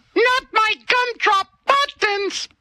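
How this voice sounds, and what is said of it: Shrek gingerbread man character voice. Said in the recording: “can I do an impersonation ... The gingerbread man from the Shrek movies”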